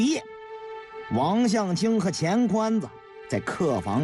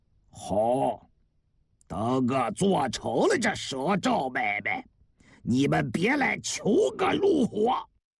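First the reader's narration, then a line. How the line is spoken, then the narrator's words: Cold. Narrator (Chinese): 王向清冷冷地说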